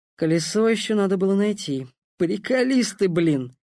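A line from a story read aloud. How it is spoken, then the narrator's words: Sighed. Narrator (Russian): вздохнул Дэн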